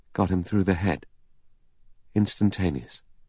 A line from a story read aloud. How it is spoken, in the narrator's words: The doctor said, still in the same lifeless voice